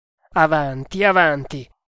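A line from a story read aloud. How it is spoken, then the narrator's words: Exclaimed. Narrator (Italian): esclamò Tremalnaik, che non perdeva una sillaba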